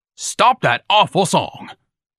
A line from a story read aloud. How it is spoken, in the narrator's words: Ignatius shouted